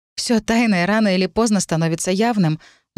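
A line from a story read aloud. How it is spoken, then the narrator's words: Sighing. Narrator (Russian): вздохнула Кира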